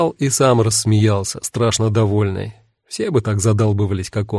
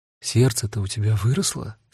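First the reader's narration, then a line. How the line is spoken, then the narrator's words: Whispered question. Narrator (Russian): спросила Дита шепотом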